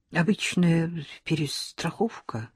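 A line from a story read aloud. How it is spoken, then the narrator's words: Muttered. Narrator (Russian): пробормотал Никоненко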